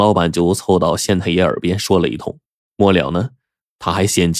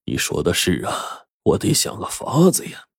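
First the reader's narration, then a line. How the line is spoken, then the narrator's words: Low, worried voice. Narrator (Chinese): 张县令这眉头一皱，低声就说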